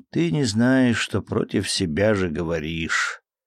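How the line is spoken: Sad remark, aunt. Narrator (Russian): Тетушка печально замечала ему

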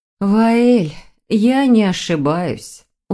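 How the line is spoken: Tired sigh. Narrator (Russian): устало вздохнула Вероника

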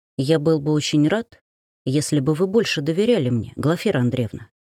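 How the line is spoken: Barely audible. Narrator (Russian): еле слышно сказал

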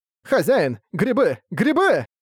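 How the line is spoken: Shout. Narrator (Russian): прокричал Роккарт

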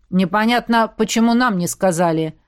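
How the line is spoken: Muttering. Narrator (Russian): буркнула Оша

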